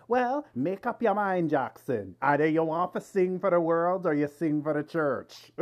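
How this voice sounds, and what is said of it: Put-on character voice with accent. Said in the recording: “Accent that you give me... you go into a character like you're reliving that moment.”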